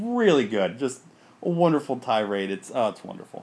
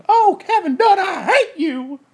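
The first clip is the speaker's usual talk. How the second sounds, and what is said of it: Imitates another person's voice. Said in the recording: “my Paul Bearer impression”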